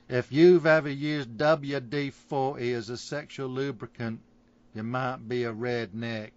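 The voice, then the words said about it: Failed attempt at Southern redneck accent. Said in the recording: “What accent were you going for? ... you aimed for all of them and you hit none of them. ... Tired and tequila? Nailed it. ... Southern drawl? Not so much.”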